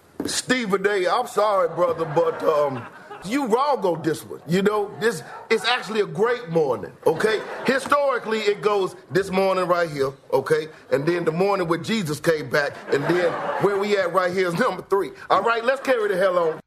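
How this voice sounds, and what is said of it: Impression of Kendrick Perkins. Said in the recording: “It was a tremendous, tremendous impersonation we saw a couple of weeks ago from Kenan Thompson of Saturday Night Live ... that was an absolutely fantastic impression of Kendrick Perkins”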